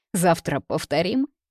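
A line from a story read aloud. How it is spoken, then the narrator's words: Giggling. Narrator (Russian): Я все еще хихикаю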